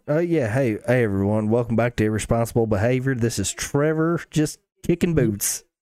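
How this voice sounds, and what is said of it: Heavier Southern twang accent. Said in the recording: “your actual accent ... I have a lot more of a twang whenever I let it go”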